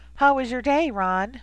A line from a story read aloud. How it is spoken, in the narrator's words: Ron asked himself in a girlish voice, affecting a tone of great concern